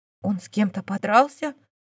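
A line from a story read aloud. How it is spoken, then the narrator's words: Whisper. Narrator (Russian): прошептала сеньора Марин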